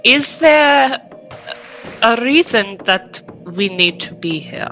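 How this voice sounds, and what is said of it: Put-on accent. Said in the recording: “I don't know what that accent was. It came out.”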